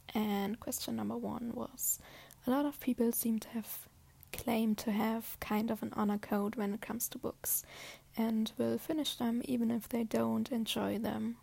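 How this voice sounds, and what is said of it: Noticeable non-native accent. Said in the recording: “I apologize for my accent, which is terrible probably”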